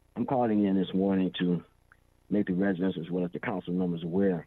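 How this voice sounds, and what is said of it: Voice roughened by a cold. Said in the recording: “You have to excuse my voice, I have a slight cold.”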